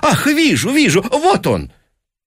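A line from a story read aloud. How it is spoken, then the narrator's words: Exclaimed with feigned animation. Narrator (Russian): сделанным оживлением, воскликнул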